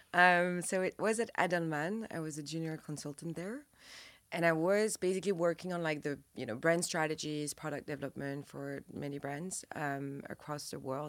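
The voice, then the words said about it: French accent. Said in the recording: “As you can tell, I'm French from my accent.”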